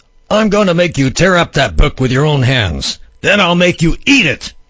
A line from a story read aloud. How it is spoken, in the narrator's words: one of the guards startled, or rather snarled